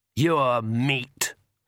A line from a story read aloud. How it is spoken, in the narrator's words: snarled the Count